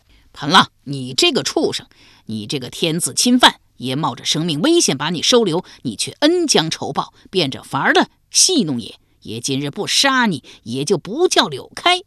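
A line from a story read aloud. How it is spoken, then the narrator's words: Loud furious cursing. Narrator (Chinese): 柳开高声大骂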